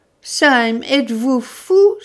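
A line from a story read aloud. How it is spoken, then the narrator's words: Secretary exclaiming. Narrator (French): s'écria le secrétaire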